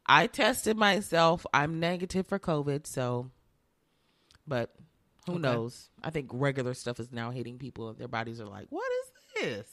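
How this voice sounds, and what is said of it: Sick, rough-sounding voice. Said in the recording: “my voice sounds really terrible. My throat hurts and I'm coughing a little bit”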